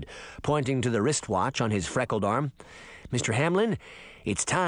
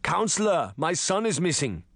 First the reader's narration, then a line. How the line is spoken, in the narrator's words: the principal shouted angrily